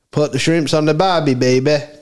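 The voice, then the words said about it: Poor put-on Australian accent. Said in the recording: “Was that your attempt at the Aussie accent? ... It was a flop of an attempt”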